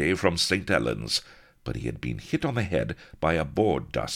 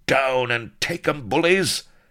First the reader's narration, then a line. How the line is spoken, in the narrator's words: with glad cries